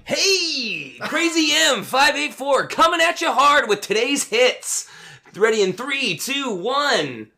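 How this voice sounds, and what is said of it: Exaggerated radio DJ voice. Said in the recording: “That's not the radio voice Crazy M 584 would have”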